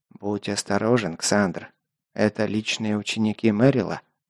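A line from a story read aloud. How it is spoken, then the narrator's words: Quiet. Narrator (Russian): тихо проговорил майор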